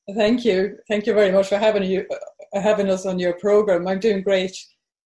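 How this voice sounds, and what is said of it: Slight Swedish accent. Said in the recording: “I'm originally from Sweden, but I've lived in Ireland for well over 40 years now... So you're hearing a bit of an accent there.”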